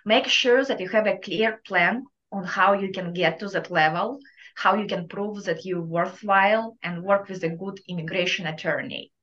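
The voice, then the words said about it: Thick Russian Eastern European accent. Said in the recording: “my thick Russian accent ... we all have Eastern European accent”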